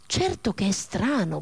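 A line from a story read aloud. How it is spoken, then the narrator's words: Muttered. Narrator (Italian): borbotta Zarasca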